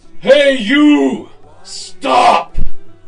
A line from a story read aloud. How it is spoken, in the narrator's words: Ungli Mall yelled out in a ferocious, awful voice